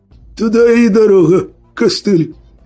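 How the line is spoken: Hoarse laughing. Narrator (Russian): Сипло поддержал смехом сутулый

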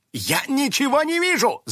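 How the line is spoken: Yelling. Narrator (Russian): завопил Финик

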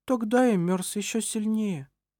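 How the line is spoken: Sad reply. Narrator (Russian): печально ответил он

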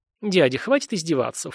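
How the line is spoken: Snorted. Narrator (Russian): фыркнул Саня

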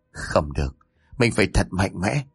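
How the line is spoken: Deep breath, muttering. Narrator (Vietnamese): hít một hơi thật sâu, miệng lẩm bẩm

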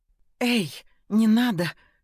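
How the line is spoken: Hoarse breathless exhale. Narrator (Russian): Сипло выдохнула Даша

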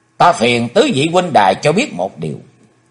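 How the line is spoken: Solemn speech. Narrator (Vietnamese): Chí Tôn nghiêm nghị nói

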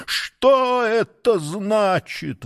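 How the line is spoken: Astonished exclamation. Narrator (Russian): воскликнул изумленный сатана

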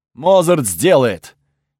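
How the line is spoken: Loud, assured. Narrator (Russian): громко заверил тот

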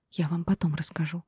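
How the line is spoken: Girl speaking quietly. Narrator (Russian): тихо проговорила девушка

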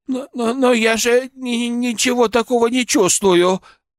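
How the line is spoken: Timid babble. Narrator (Russian): пролепетала

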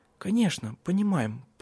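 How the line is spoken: Mumbling. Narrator (Russian): пробормотала она

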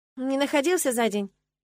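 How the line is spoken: Snide question. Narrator (Russian): ехидно уточнила я

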